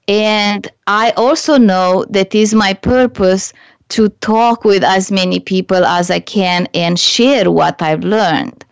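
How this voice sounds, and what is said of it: Slight non-native English accent. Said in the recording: “I have, you know, a little bit of an accent. English is not my first language.”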